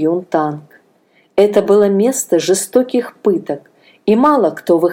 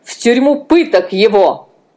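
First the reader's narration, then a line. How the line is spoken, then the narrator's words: Loud shouting. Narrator (Russian): Анна громко закричала, услышав название тюрьмы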